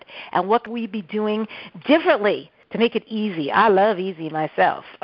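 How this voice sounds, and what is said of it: Strong New York accent. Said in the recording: “my New York accent is so out right now”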